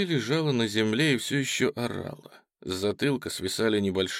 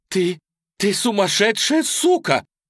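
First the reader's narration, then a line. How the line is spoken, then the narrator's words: Shouting. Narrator (Russian): закричала Сара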